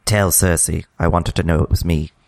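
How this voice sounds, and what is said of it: Imitates a TV character's voice. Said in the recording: “your impression of Olenna Tyrell's last words”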